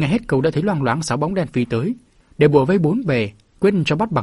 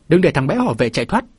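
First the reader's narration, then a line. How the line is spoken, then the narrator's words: Loud shout. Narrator (Vietnamese): có tiếng quát lớn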